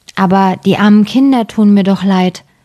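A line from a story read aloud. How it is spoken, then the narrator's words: Plain. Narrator (German): sagte der Mann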